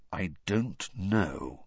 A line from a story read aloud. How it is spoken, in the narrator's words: said Sirius slowly